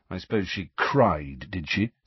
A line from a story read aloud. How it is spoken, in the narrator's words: said Harry bitterly